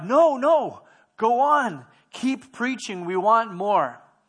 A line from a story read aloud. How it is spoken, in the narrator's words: a man in the vast congregation stood up and cried